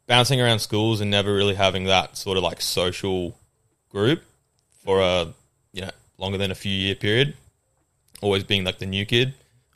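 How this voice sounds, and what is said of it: Australian accent. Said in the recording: “my accent's Australian”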